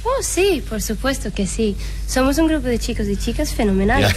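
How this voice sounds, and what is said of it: Small girlish character voice. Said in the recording (Spanish): “¡Es la vocecita! ... Oye, vocecilla. Y además, oye, tu acento venía perfecto para esa escena”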